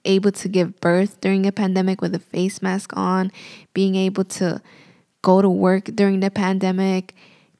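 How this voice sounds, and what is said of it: Tired, raspy voice. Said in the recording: “I'm getting tired and my voice is getting raspy.”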